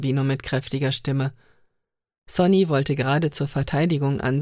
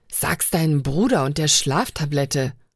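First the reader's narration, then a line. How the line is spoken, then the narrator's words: Hissing. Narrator (German): fauchte Anna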